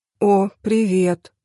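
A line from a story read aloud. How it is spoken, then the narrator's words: Mumbled. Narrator (Russian): промямлила я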